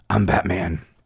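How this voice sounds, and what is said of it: Gravelly Batman impression voice. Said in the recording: “gravelly voice ... your best Batman impersonation”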